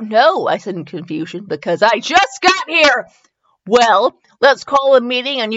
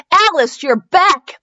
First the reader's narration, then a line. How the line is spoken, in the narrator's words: Esme shouted